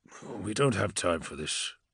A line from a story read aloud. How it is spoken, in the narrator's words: Corferon muttered